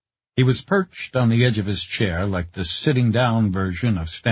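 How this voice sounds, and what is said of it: Usual voice. Nothing is said of it.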